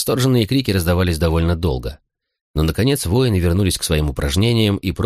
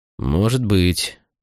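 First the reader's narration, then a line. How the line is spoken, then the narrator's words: Glum agreement. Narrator (Russian): уныло согласился Катон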